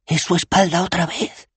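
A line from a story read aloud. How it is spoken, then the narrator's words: Whispered. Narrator (Spanish): susurró Dos Flores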